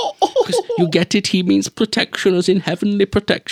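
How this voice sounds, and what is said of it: Usual voice. Nothing is said of it.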